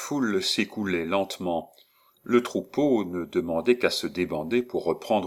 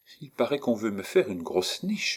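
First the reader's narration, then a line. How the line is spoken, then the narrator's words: Murmured. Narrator (French): murmura-t-elle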